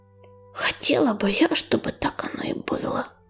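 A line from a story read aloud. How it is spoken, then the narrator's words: Whisper. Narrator (Russian): прошептала Листочка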